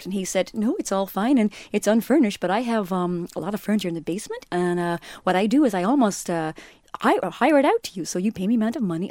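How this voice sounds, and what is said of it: Put-on accent. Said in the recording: “I'll stop doing the accent.”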